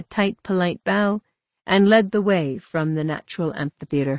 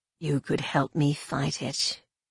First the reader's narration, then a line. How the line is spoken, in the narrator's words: Rena whispered close to her ear